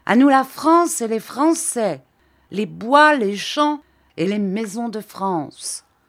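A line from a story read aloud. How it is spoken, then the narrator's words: Drunken, brutish vociferating. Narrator (French): Les autres, tout à fait sous, secoués soudain par un enthousiasme militaire, un enthousiasme de brute, en vociférant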